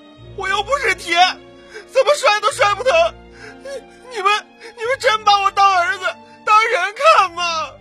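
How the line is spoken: Bursting out sobbing. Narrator (Chinese): 李金爆发了，冲着父母大哭

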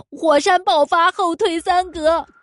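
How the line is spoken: Shouting. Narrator (Chinese): 他叫道

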